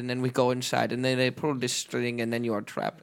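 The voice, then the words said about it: Put-on German accent. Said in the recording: “we eventually like fell into a decent German accent. At first we were struggling.”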